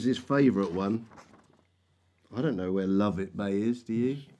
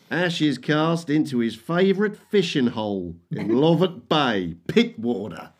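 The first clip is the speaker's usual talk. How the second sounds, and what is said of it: Put-on Australian accent. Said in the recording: “Can I read this in an Aussie accent?”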